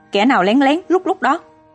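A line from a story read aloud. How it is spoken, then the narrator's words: Shout. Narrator (Vietnamese): Có một tên la lên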